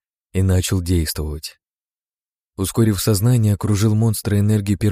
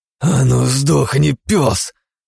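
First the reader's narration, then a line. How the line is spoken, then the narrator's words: Growled through clenched teeth. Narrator (Russian): сжав зубы, рыкнул Игнат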